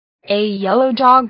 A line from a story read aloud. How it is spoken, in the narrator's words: cried Franz